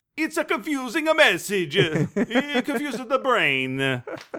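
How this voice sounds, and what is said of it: Put-on Italian accent. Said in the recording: “I can't do a Spanish accent. I'll do an Italian accent.”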